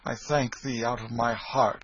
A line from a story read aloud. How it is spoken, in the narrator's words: exclaimed Hendon, with a fervency which showed that he was touched